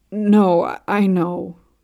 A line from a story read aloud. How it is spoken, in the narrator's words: groans